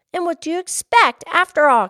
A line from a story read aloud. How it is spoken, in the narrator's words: Katie cried